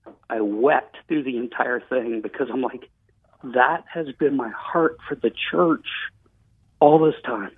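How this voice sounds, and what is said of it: Choked-up, emotional voice. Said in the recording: “I'm obviously a little choked up right now”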